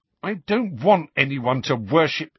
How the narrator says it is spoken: Harry began hotly

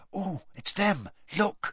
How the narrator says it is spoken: Hermione whispered

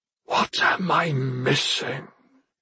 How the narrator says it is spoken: he whispered to himself

